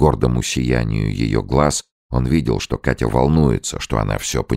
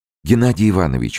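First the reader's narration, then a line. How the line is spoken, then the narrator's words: Exclamation. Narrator (Russian): воскликнула она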